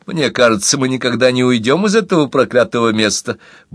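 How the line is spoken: Grumbled. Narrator (Russian): буркнула Тереза

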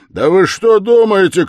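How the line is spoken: Shouting, voice rising. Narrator (Russian): кричал Разумихин, еще более возвышая голос

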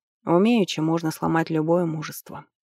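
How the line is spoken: Sighing. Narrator (Russian): вздохнул Хатепер

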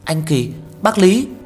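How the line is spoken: Surprised exclamation. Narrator (Vietnamese): Kha Lương kinh ngạc kêu lên

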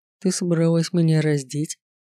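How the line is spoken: Faltering mocking curious voice. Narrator (Russian): Прерывающимся насмешливым голосом полюбопытствовал Латеску

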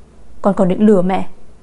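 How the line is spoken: Angry. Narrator (Vietnamese): Hứa Nhã Dung tức giận

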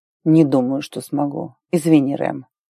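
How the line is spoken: Quiet. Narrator (Russian): тихо сказал Арн

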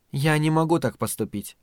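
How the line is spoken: Calm. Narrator (Russian): спокойно ответила Надин

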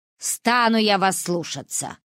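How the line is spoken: Grumbling. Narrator (Russian): проворчала она

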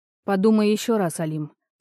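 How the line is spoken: Tired sigh. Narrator (Russian): устало вздохнула

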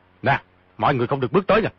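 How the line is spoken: Sharp shout. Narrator (Vietnamese): quát

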